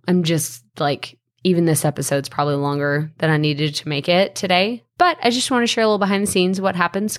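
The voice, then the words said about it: Strained, fading voice. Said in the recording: “now I'm starting to lose my voice ... after my voice gets better ... I got to save my voice”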